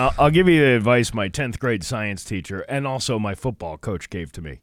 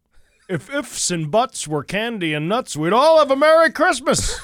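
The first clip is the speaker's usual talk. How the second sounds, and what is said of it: Imitates a football coach's voice. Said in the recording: “great football coach imitation”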